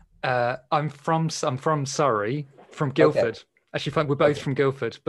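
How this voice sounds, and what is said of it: West London English accent. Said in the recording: “your lovely accents ... my accent is more West London”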